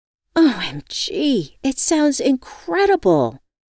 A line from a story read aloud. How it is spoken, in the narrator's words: I exclaimed